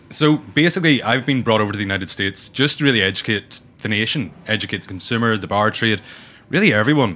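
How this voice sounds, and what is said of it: Northern Irish accent. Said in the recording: “I'm right up from the north coast of Ireland, so it's not your traditional rhythmical Irish accent”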